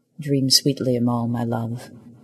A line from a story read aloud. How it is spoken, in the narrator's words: he said quietly into the crescent